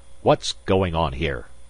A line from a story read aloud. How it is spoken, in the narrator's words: Magnan barked